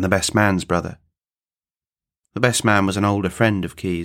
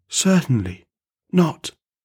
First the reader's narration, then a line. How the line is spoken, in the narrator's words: the welcomer replied in a tone that was incredibly stifled and quiet and ghostly, with nervously twitching lips